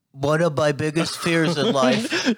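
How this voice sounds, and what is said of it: Imitates another person's voice. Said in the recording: “Dude, I don't sound like that. Do my voice... You gotta dumb it down, dude.”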